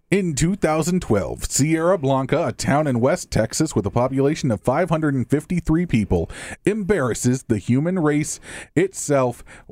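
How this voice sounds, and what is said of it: Radio announcer voice. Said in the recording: “This next one requires a radio voice.”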